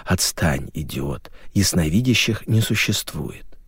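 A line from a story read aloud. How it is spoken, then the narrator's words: Hissed. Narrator (Russian): Аня зашипела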